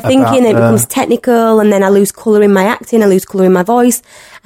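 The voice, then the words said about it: Broad Yorkshire accent. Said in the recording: “You got a broad one, though. You got a broad Yorkshire accent.”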